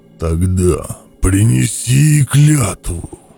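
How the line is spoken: Growled. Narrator (Russian): прорычал нерожденный

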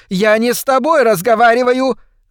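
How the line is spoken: Angry shriek. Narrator (Russian): завизжала миссис Шейфер

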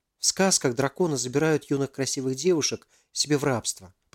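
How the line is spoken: Whispered. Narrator (Russian): прошептала Алиса

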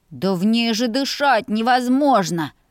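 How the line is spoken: Wailing little brother. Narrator (Russian): взвыл братишка

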